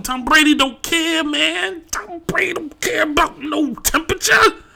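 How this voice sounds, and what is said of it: Imitates another person's voice. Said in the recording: “best Lonzo Ball impression”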